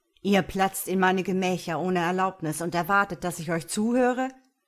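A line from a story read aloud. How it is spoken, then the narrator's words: Thundering outburst. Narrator (German): donnerte der Fürst los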